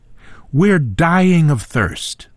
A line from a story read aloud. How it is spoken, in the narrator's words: cried